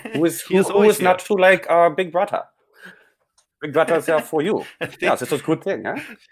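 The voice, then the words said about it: Put-on generic Austrian accent. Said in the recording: “I think we both just did an Austrian accent... Generic, it's European. Foreign.”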